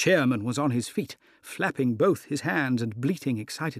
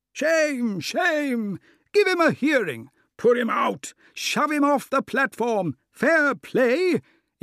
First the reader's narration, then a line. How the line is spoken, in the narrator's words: general roar of amusement or execration